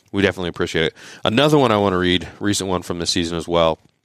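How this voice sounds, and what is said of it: Hoarse, fading voice. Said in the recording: “Losing my voice here a little bit.”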